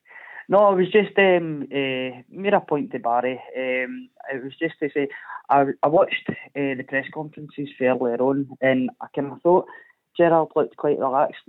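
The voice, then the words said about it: Hoarse, sore-throated voice. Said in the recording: “I've got a bit of a sore throat. ... No, I've got COVID.”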